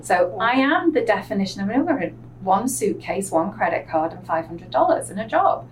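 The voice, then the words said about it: English accent. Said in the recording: “people hear my accent ... most people hear my accent ... you've been trained that somehow English people are something different”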